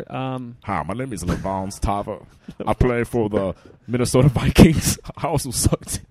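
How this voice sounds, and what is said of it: Bad fake football player voice. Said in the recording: “That was the worst impression of a fake football player.”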